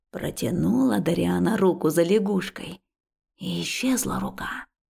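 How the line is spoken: Spooky storytelling voice. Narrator (Russian): страшным голосом вещает Джавид

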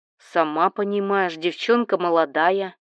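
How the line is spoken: Chuckling over the phone. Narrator (Russian): хохотнул в трубку Олег

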